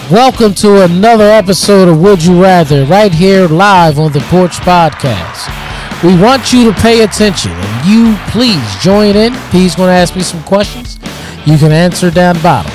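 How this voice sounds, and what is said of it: Fake announcer voice imitating another person. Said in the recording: “the fake Obama announcer voice.”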